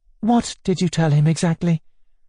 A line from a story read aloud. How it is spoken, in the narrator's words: Natasha asked anxiously